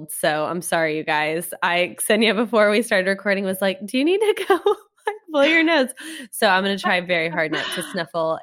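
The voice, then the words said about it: Congested, stuffy-nosed voice. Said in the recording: “I sound like I have a cold because I do have a cold”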